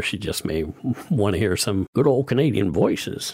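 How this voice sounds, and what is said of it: Attempted Canadian accent, sounding southern. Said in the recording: “if I had just done a Canadian accent right there... I don't know what that was... It was kind of southern.”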